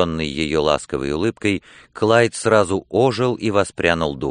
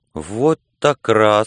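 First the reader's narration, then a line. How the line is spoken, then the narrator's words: Upset exclamation. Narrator (Russian): с огорчением воскликнул Клайд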